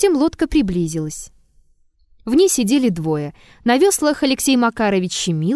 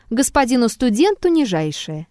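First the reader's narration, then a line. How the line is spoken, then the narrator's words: Calm reply. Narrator (Russian): Щемилов спокойно ответил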